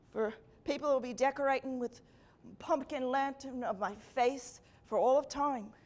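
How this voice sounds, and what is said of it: Weak put-on Irish accent. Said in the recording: “Jack was Irish. And while my Irish accent isn't very good”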